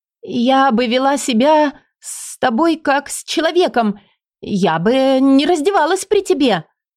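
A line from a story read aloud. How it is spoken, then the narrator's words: Near shriek. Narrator (Russian): почти взвизгнула я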